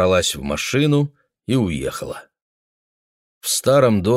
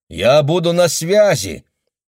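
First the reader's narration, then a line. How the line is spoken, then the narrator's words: Shouting. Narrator (Russian): Мэгги крикнула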